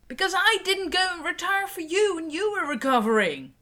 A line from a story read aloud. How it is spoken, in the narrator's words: she yells back